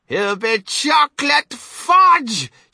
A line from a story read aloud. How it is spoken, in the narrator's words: shrieked Mrs